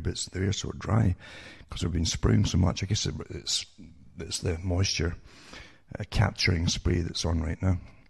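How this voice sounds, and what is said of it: Slightly crackly voice. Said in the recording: “my voice is a bit crackly here”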